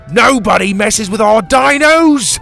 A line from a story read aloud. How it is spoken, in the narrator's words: he shouted